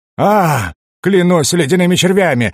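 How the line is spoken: Roar. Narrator (Russian): взревел гном

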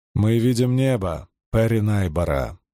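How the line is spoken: Calm reply. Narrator (Russian): спокойно ответила Эдарра

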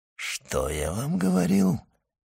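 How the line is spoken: Whisper. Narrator (Russian): шепнул комендант

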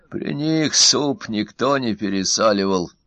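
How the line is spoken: Sighing. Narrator (Russian): вздохнул первый

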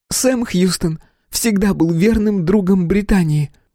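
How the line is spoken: Shrieked. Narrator (Russian): взвизгнула она

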